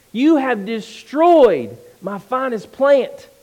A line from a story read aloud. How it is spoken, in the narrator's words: he exclaimed